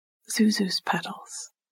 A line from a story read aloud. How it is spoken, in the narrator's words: whispered back